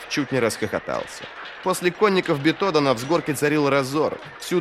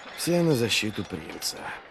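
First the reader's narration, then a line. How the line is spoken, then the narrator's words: Muttering. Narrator (Russian): пробормотал Вест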